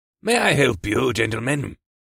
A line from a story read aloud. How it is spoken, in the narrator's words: the audacious dwarf asked in a gruff voice